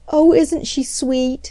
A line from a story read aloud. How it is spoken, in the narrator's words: all the girls exclaimed in admiration